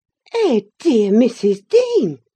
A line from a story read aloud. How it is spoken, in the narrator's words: she exclaimed